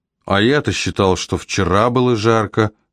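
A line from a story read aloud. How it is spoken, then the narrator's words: Plain. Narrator (Russian): сказал Сокол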